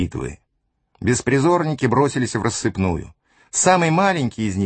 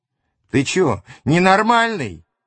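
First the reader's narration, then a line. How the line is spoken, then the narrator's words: Teenager yelling, holding nose. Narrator (Russian): заорал подросток, схватившись рукой за нос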